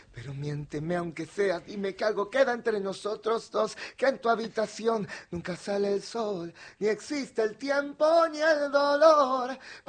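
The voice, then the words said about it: Sultry whispered singing voice. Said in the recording (Spanish): “Susurra. ... ¡Susurrando! ... Son más susurraditos, muy, sí, muy gato con bota. ... muy susurradito, muy susurradito. ... A eso de Antonio Banderas.”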